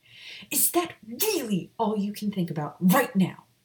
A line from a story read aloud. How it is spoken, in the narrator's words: Maya snapped as she stormed into the infirmary